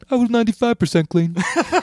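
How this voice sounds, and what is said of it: Imitates another person's voice. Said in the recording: “my bad Brian Regan impression... it's not accurate, but, you know, you get the idea”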